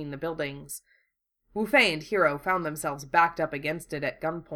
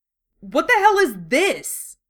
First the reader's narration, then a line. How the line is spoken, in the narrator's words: Wufei snapped, making sure he sounded as scared as he could manage